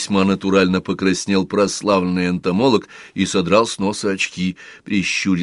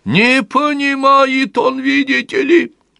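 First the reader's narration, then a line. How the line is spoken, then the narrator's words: Near-shrieking young woman. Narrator (Russian): Девица уж почти визжала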